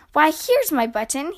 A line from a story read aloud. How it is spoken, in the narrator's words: cried